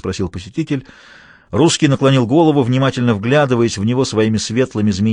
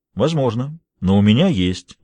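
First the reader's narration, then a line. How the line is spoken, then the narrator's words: Dry remark. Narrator (Russian): заметил Джулиус сухо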